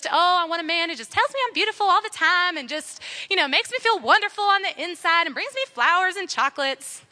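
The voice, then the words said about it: Put-on Southern American accent. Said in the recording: “I don't know why that's in a Southern accent, my bad.”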